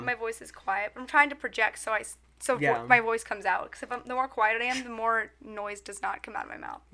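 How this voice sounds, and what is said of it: Raspy, quiet, sick-sounding voice. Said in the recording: “My voice is a little messed up ... I have a little bit of a little sickiness, so if I sound a little whack ... a little raspy. It's like I listen to a little jazz show.”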